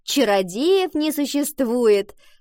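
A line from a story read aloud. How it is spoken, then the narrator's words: Chiming in. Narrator (Russian): подхватила Валентина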